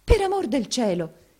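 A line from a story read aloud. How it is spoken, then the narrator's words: Dismayed exclamation. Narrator (Italian): esclamò Maddalena tutta sgomenta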